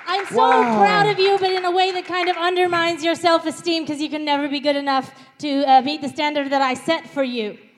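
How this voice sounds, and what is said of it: Sort of Australian accent. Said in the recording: “this accent ... sort of Australian”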